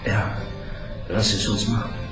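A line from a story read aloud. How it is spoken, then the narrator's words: Moaning with desire. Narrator (German): stöhnte sie, völlig eingenommen von einer noch nie zuvor erlebten Lust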